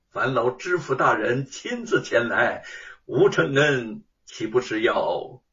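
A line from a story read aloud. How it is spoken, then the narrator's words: Calm, faint smile. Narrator (Chinese): 吴承恩淡然一笑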